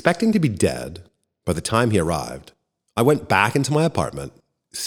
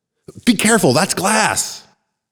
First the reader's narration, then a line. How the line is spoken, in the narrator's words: I yelled